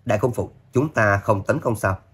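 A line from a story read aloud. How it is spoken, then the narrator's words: Slightly startled interruption. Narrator (Vietnamese): Nghĩa Bắc Công khẽ giật mình chặn lại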